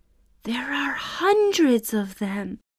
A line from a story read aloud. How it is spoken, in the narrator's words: whispered Allie